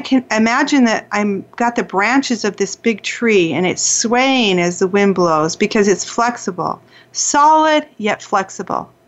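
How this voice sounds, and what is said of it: Calm, soothing voice. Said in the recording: “as I'm talking to you now in that calm voice, I became calm”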